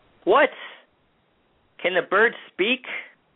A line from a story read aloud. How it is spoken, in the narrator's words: cried the king